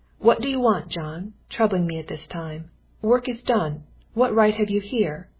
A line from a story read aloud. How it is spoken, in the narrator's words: the master came out and said somewhat roughly